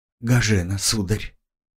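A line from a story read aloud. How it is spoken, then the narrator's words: Shy blushing girl, quiet. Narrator (Russian): Зардевшаяся девушка потупилась и тихо произнесла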